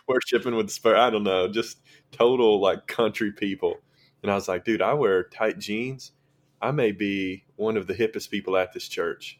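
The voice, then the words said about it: Thick Southern drawl. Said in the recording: “I think I have the thickest Southern draw at the entire place”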